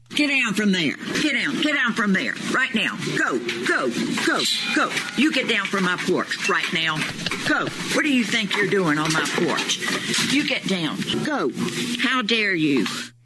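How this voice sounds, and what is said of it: Stern scolding teacher voice. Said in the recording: “the chick used her teacher voice to shoo away a bear ... that sounded like she could have been talking to a kid climbing on the desk”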